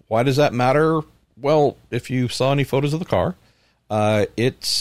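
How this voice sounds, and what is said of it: Usual voice. Nothing is said of it.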